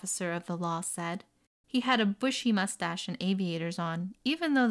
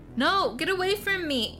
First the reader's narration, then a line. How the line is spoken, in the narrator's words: she shouted